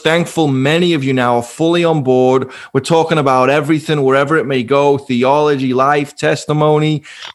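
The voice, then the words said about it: Strong non-American English accent. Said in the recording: “you already have to kind of tolerate my accent, so you Yanks all say. You all still think I'm speaking in tongues ... we both sound kind of funny”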